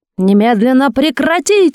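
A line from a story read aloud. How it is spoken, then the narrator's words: Bellowed at full force. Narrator (Russian): что было сил, гаркнул Матвей Бенционович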